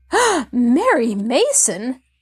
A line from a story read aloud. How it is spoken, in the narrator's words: the woman exclaimed sharply